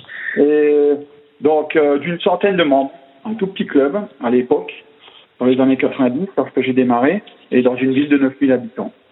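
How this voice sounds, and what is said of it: Alsatian regional French accent. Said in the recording (French): “un petit club en Alsace ... On l'entendra dans mon accent.”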